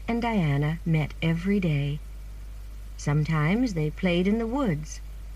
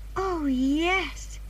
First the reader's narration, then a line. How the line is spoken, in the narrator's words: said Anne happily